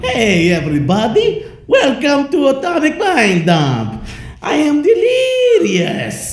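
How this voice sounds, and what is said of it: Cartoonish Wario-like mock Russian-Italian accent. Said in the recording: “That sounded like Wario, right? ... It was like Wario doing Italian a Russian guy. Accent. ... That was a really good Italian ... accent. ... Wario doing a Russian accent.”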